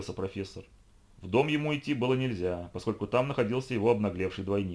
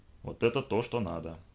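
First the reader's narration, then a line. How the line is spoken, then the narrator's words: Satisfied mutter. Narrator (Russian): пробормотал он удовлетворенно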